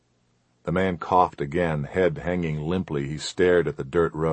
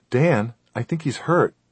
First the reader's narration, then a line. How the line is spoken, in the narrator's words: his wife said